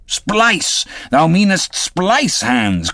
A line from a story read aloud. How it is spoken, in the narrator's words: cried Peleg